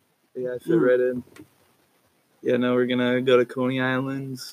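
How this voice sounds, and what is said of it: Usual voice. Nothing is said of it.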